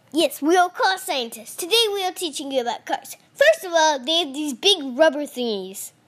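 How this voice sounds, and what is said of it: Weird scientist character voice. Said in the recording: “in my weird scientist voice”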